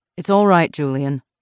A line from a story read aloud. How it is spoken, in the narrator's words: Weigert said